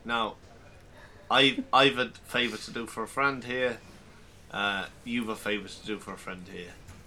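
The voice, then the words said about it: Imitates another person's accent. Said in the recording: “I'm not mocking your accent, I'm just copying it ... I'm back to my normal self”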